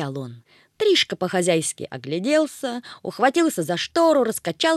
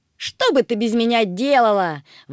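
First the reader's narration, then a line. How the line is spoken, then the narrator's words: Exclaiming. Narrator (Russian): воскликнул Плутыш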